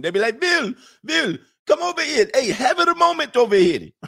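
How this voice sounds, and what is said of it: Put-on Indian accent. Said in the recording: “They're going to be mad at me, bro, when I talk about their accent”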